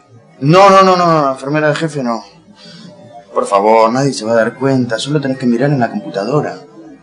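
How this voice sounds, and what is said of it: Argentine Spanish accent. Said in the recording (Spanish): “Usted es argentino, ¿verdad? ... Sí, de Buenos Aires ... con este acento”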